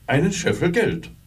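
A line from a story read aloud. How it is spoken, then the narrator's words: Answered. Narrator (German): antwortete er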